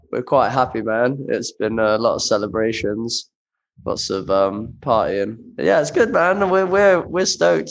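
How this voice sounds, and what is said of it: Worn, rough voice. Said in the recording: “as you can might be able to tell from my voice. It's uh a little bit worse for wear.”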